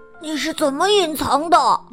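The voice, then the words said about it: Quiet, hushed question. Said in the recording (Chinese): “迪比也小声问”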